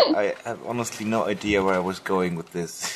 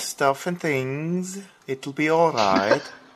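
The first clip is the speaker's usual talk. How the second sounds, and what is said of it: Put-on Swedish or Austrian accent. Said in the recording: “Is that a Swedish accent you're running there? ... No, it sounded more, ... Austrian. ... Like, from the Alps. Yeah, Austrian.”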